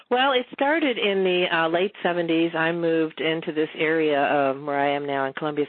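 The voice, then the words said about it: Southern US accent. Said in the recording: “a great southern accent”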